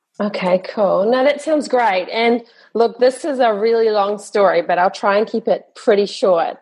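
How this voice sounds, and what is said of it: Southern Hemisphere accent. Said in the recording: “you from really Southern, as in Southern Hemisphere”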